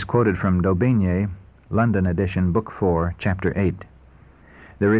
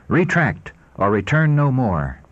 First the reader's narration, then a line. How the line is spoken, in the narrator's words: he finally declared in a haughty and angry tone